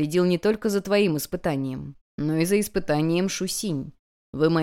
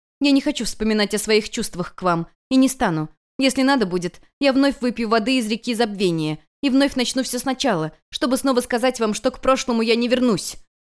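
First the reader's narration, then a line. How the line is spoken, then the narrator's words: Shouted. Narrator (Russian): выкрикнула Юнь-Юнь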